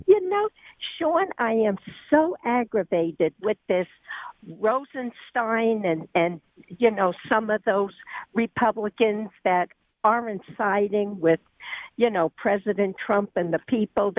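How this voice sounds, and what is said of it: New York accent. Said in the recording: “You sound like a New Yorker who moved to North Carolina. ... I got New York in me. ... you have an accent.”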